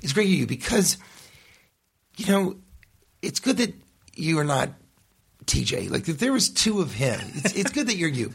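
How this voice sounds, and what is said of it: Imitates another person's voice. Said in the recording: “this is my Cash Levy impersonation.”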